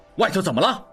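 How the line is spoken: Loud shout. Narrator (Chinese): 应季大吼道

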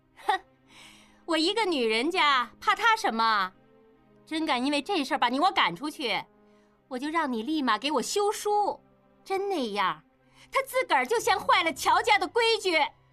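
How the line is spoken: Cold sneer. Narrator (Chinese): 应英女人冷笑一声

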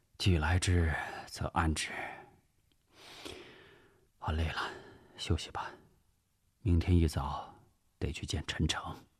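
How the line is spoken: Sighing speech. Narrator (Chinese): 吴石叹了口气，看着妻子说

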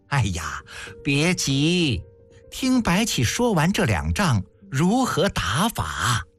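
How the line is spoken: Laughing. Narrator (Chinese): 宣太后笑道

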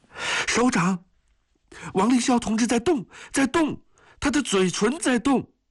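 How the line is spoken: Trembling, excited shout. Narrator (Chinese): 一个颤抖的声音在激动地喊着

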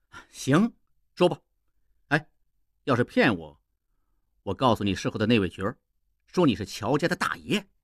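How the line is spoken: Laughing. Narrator (Chinese): 应季笑道

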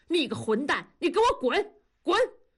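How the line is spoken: Furious stamping roar. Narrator (Chinese): 同志跳着脚吼

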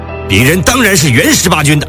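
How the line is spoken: Loud, flustered. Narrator (Chinese): 上校涨红了脸大声说

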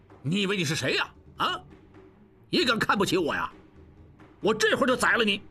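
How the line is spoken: Angry. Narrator (Chinese): 刘小七怒道

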